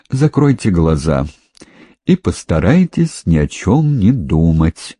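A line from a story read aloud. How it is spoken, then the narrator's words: Soft. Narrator (Russian): Лаврентьев мягко произнес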